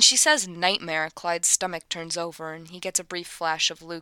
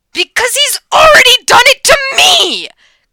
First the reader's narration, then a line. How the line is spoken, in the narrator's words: Clyde shouts loud enough to have half the sixth form turn around and stare at him